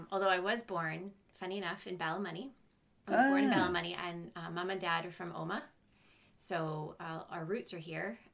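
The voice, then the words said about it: Canadian accent. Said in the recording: “So I grew up in Canada, so it's a Canadian accent. ... You haven't got a Northern Ireland accent.”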